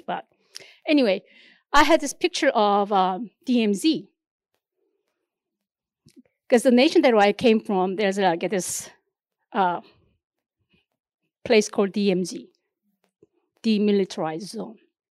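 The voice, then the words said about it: Non-native English accent. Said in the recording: “obviously you can tell from my accent, I wasn't born here, so English is not my first language”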